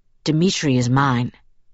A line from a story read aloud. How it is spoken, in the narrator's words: Edward said in a hard, tight voice